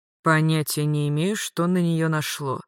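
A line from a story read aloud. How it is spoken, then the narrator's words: Calm. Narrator (Russian): спокойно говорил Магарыч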